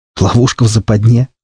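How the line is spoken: Surprised snort. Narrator (Russian): удивительно хмыкнул я

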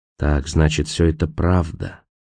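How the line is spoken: Whisper. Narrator (Russian): прошептал Николас

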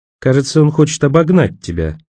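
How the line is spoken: Calm statement. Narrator (Russian): спокойно сообщила Роэн

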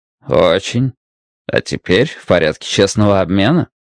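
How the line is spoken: Chuckling. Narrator (Russian): Уордл хохотнул

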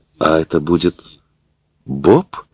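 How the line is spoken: Stammering. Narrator (Russian): сказала, запинаясь, Мэри

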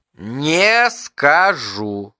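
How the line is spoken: Syllable by syllable, capricious childish. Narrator (Russian): по слогам произнес Бартлби капризным тоном маленького ребенка

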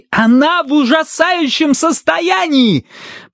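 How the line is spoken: Shout. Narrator (Russian): прокричал Бристоу

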